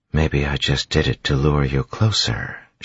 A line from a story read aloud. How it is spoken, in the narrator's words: she whispered, softly, yet loud enough that she knew tin-enhanced ears would hear her